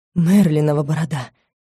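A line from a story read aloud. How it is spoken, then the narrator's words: Muttering man. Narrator (Russian): Пробормотал мужчина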